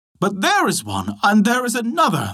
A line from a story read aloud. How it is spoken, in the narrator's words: they all cried out